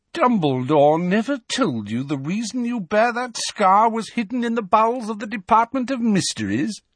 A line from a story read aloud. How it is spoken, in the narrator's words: Malfoy sneered